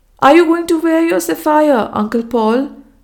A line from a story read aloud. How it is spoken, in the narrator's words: she cried in a tone of dismay